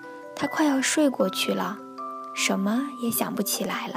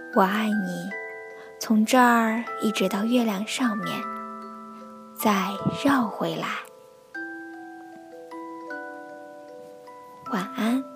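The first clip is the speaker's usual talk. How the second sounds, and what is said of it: Soft, quiet whispered speech. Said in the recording (Chinese): “小声说道”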